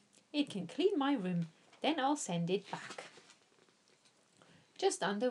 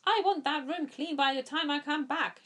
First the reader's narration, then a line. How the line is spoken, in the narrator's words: she shouted